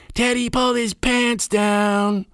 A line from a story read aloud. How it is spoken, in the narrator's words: Gina ran gleefully yelling